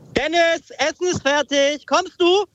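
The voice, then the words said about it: Mother calling upstairs, rising pitch. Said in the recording (German): “dieses kommst du am Ende. Mit der Stimme auch so hochgehen, so kommst du? ... So Treppen hochschreien.”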